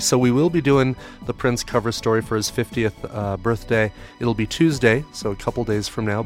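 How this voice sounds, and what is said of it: Rough, hoarse voice. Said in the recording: “My voice is a little bit rough, recovering from the cold”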